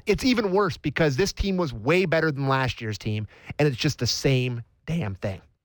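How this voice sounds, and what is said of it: Upset voice cracking with emotion. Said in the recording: “sorry for my voice to crack, but I'm just really upset.”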